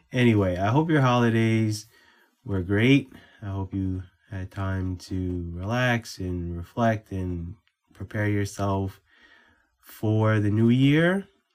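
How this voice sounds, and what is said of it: Congested, stuffy-nosed voice. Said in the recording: “I sound different because I am getting over a cold ... right now I would like a new nose”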